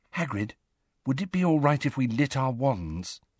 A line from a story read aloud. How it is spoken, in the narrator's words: said Hermione quietly